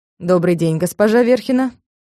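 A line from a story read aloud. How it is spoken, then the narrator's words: Calm. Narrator (Russian): спокойно сказал он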